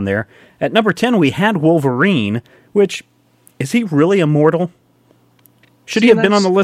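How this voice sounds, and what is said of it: Usual voice. Nothing is said of it.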